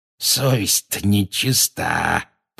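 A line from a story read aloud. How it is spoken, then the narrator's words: Wheezing. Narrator (Russian): просипел он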